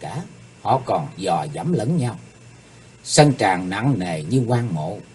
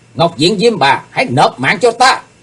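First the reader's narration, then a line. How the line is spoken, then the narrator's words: Battle shout. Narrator (Vietnamese): tiếng hét, Chí Tôn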